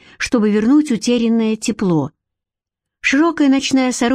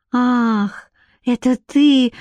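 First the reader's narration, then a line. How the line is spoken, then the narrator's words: Dismissive exhale. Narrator (Russian): выдохнула она тоном, ясно дававшим понять, что он не стоит ее волнений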